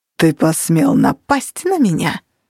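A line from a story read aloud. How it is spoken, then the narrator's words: Hissed. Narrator (Russian): прошипел Реджедев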